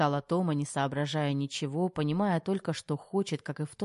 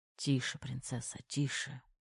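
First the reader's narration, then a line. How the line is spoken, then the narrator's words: Whispering in ear. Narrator (Russian): шептал Терехов ей на ухо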